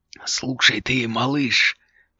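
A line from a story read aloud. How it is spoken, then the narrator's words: Hissing head. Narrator (Russian): прошипела голова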